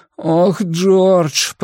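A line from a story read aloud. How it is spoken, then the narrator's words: Moaning. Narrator (Russian): простонал Блейз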